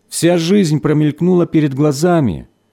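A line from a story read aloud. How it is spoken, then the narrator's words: Plain. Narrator (Russian): сказал Дмитрий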